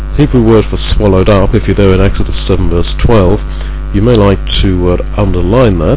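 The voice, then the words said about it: School teacher-like instructive voice. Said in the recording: “put on my school teacherly voice,”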